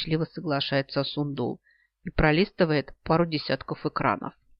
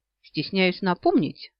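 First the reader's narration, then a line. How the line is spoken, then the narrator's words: Indignant declaration. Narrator (Russian): заявляет возмущенно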